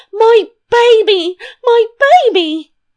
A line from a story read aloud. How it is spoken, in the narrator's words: The nurse screaming